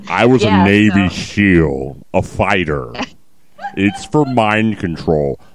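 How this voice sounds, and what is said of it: Jesse Ventura impression. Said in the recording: “my Jesse imitation. I'm working on it.”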